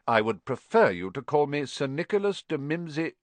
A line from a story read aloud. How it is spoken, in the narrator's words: the ghost began stiffly